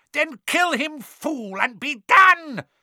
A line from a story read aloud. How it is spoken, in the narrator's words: screeched Voldemort